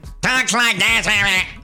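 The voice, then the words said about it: Gilbert Gottfried impression. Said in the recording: “Gilbert Gottfried. He's a comedian. ... Not your best impression,”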